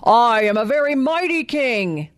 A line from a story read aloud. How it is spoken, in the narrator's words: he roared